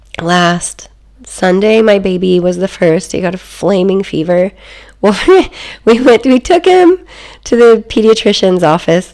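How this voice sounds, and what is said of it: Sick-sounding voice. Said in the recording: “You might be able to tell in my voice, but I've been super sick.”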